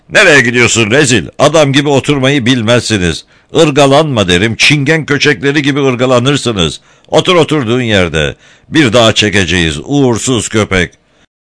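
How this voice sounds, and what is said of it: Angry shouting. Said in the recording (Turkish): “Birden sahici bir öfkeyle bağırmaya başladı”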